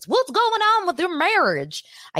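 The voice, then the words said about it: Put-on hillbilly accent. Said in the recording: “All of a sudden, I am Beverly Hills Hillbillies ... I can't do these accents. I really can't ... you're making me do accents ... my accents and my impressions”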